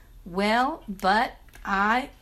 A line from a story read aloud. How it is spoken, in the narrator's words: Duffy kind of stuttered, saying